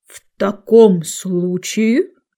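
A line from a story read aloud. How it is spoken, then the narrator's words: Solemn ancient drone. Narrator (Russian): торжественно проговорил древний дрон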